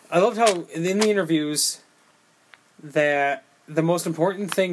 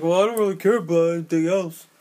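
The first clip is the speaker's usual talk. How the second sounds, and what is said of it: Imitates another person's voice. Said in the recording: “That's a good Stallone impression”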